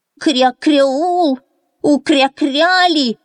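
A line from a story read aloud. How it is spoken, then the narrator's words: Shouted. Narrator (Russian): закричал он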